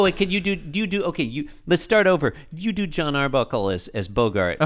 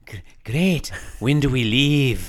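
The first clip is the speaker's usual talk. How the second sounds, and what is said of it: Peter Lorre style character voice. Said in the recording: “maybe it's a Peter Lorre voice... That's perfect.”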